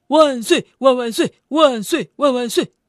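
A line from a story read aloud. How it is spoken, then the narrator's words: Repeated shouting. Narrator (Chinese): 一直呼喊着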